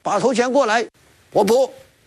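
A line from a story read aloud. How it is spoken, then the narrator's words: Calling out. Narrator (Chinese): 李逵叫道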